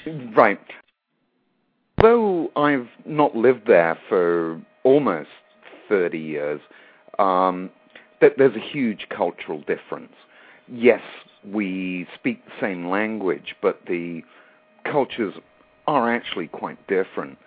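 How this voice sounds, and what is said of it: English accent. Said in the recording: “being from England, you might have spotted that by my accent.”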